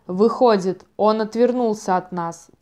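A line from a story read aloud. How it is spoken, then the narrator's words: Furious panting growl. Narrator (Russian): тяжело дыша прорычал взбешенный ярл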